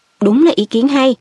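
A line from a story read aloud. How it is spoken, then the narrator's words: Quick, grateful. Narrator (Vietnamese): Harry nói ngay với giọng biết ơn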